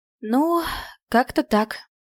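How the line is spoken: Sigh. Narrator (Russian): вздохнула я

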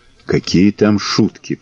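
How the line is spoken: Whisper. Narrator (Russian): прошептал Белобрысый

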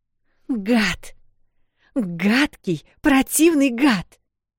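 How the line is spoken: Exclaimed. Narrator (Russian): воскликнула она

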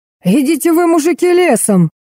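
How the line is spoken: Loud yell, hoarse bass. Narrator (Russian): Завопил, перекрыв его голос, на заднем фоне чей-то простуженный бас

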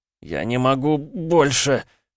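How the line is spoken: Strained groan. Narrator (Russian): простонал Полозов, сдерживаясь из последних сил

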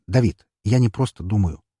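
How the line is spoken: Sharp interruption. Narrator (Russian): резко перебил я его

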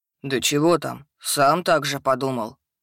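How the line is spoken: Snort. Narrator (Russian): хмыкнул тролль

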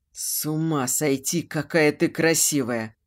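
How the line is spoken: Hoarse. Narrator (Russian): хрипло говорит

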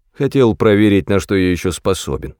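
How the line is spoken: Added. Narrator (Russian): добавил он

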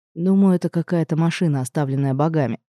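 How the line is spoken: Quiet. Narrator (Russian): тихо произнес

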